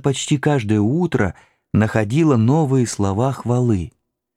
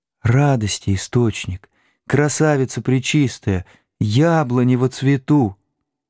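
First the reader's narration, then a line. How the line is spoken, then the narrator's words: Fervent, tender whisper. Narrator (Russian): снова шептала все горячей и умиленнее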